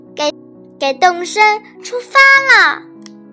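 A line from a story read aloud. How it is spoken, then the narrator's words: Distant shout. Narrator (Chinese): 远处传来斯瑞特的叫喊声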